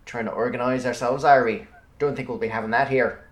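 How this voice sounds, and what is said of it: Put-on Irish accent. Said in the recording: “attempt my best impersonation of Sam Neill's Irish detective character ... You sound more Northern Irish.”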